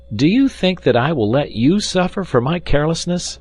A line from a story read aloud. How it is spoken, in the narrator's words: he exclaimed